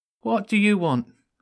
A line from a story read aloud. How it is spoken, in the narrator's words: one of the guards asked nervously